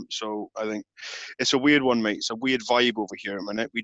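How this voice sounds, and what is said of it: British English accent. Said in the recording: “your accent”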